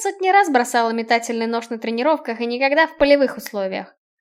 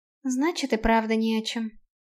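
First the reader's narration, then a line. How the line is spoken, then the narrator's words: Sighing. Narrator (Russian): вздохнула Наэль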